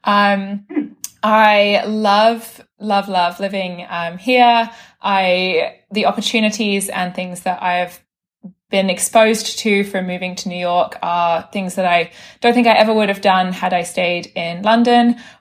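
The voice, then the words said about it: British accent. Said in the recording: “as you can tell via my accent, I'm from the UK.”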